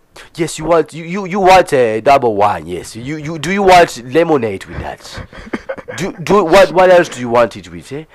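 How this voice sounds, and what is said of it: Put-on Ugandan or Nigerian accent. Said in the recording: “with a Ugandan accent, Nigerian accent, call it whatever the fuck you want ... He's talking like that.”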